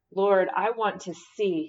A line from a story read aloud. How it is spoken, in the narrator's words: he replied